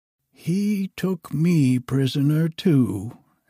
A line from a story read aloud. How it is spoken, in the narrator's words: answered